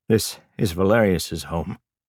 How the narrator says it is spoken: his father said between breaths

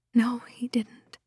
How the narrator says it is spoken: Lydia whispered, twitching each time the ram slammed against the door behind her

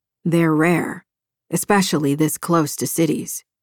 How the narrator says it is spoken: he said

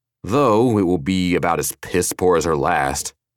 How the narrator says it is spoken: Agrippa added, his voice sour

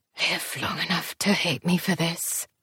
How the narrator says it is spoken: It sounded like he whispered

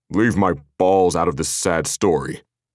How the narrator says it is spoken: Baird grumbled

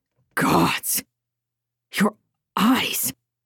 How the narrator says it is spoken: heard the gasp, heard the man say

